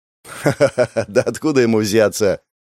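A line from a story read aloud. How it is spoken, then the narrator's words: Laughing. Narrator (Russian): Гоша засмеялся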